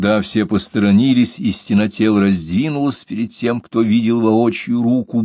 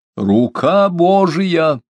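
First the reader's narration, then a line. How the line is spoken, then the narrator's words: Shout over a crowd. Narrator (Russian): Он крикнул через головы толпы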